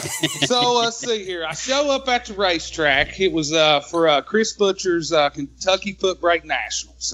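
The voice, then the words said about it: Slight Southern US accent. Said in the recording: “I got a little bit of a southern accent.”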